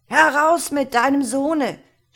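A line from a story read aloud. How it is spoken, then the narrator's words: Shouting man. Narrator (German): schrie er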